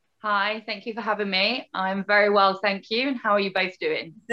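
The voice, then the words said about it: British accent. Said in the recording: “hearing your accent, you are originally from the UK”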